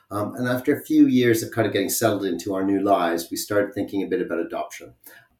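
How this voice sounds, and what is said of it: Canadian accent. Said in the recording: “keen listeners will hear from my accent that I'm not from the UK originally. So I have come from Canada”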